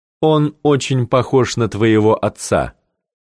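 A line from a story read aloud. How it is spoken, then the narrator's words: Plain. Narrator (Russian): сказал Дач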